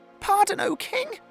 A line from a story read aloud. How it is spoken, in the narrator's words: cried the little mouse